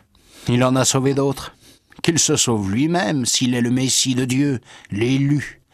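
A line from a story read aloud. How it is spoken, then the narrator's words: Sneering. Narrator (French): il ricanait en disant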